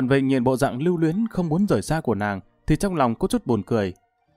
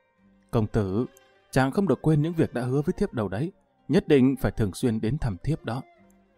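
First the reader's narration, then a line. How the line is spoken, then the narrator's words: Soft tender voice. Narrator (Vietnamese): Tần Tiên Nhi dịu dàng khẽ nói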